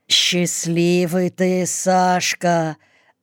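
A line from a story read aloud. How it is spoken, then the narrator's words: Envious drawl. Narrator (Russian): Не тая зависти, протянул сержант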